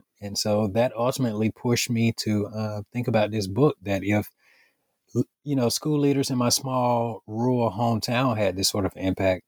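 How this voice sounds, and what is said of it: Alabama Southern accent. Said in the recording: “somebody else from Alabama ... I've lost the accent. You still have yours.”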